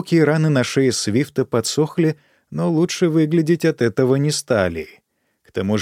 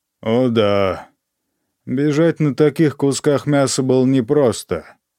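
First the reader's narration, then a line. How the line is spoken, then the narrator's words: Borrowed deep male bass. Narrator (Russian): сказала императрица басом мертвого гвардейца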